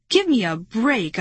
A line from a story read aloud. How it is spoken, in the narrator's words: I cried angrily